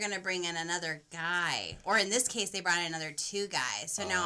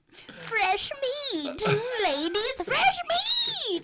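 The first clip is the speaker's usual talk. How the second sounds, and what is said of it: Cackling witch character voice. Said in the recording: “a solid witch voice”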